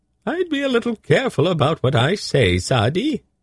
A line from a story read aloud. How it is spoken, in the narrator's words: he squeaked